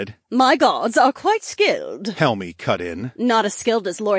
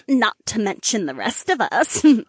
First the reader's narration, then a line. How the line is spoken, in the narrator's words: Marina chuckled